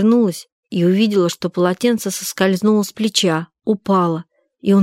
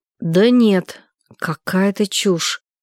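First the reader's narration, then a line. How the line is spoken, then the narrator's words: Slow speech. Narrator (Russian): медленно сказал Саня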